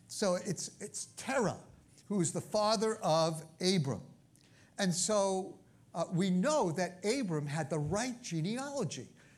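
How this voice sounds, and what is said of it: Brooklyn accent. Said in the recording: “I have an accent. I'm from Brooklyn, I have an accent.”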